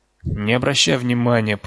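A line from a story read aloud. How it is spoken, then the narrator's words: Moaning. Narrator (Russian): простонал Стэн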